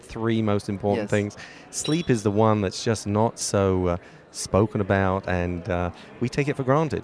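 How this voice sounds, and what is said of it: British London accent. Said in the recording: “What's your accent? ... Originally, I'm from Britain, London.”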